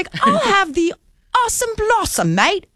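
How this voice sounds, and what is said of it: Put-on accent. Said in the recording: “You don't need an accent to order it.”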